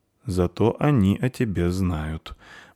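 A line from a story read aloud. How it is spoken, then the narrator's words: Gloomy. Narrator (Russian): мрачно сказал Вар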